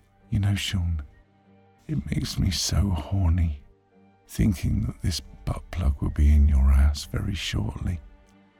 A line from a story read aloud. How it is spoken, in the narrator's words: moaned